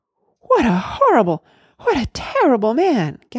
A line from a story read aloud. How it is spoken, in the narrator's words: gasped Randy